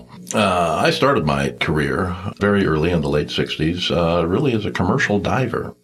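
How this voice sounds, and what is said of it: Older man's voice. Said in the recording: “tell by my voice, I'm probably not considered a millennial”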